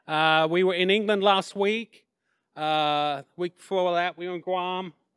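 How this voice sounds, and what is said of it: English accent. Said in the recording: “I'm originally from England, hence the accent.”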